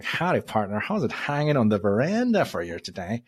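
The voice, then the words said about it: Exaggerated American accent, deliberately bad. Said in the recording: “this very Americanized, you know, accent ... Yeah, that was horrible.”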